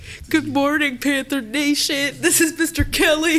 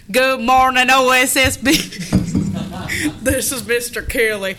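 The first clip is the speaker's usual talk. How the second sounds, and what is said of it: Exaggerated twangy accent. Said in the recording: “You gotta get a little twang in your voice. ... Well, that's a little bit too much twang.”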